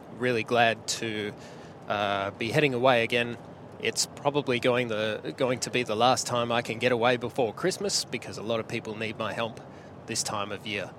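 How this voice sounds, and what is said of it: Slightly sick-sounding voice. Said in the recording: “I'm still a little bit sick, as you can probably hear in my voice”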